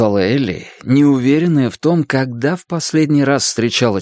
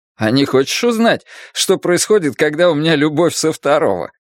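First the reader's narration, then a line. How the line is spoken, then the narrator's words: Laughing. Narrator (Russian): Элли рассмеялась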